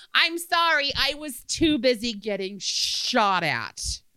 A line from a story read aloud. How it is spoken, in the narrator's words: Losing my temper and being the snarky smartass I was back then, I yelled